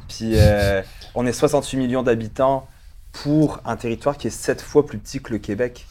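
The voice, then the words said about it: Slight French accent. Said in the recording (French): “j'ai un petit accent français”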